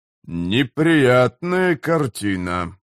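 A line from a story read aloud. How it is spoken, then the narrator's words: Grumbling. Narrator (Russian): проворчал Корбаладом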